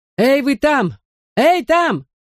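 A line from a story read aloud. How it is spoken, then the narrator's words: Shouted. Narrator (Russian): закричал кто-то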